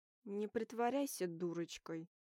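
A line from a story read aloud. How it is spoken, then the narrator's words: Growling. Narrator (Russian): Рыкнул Уолтер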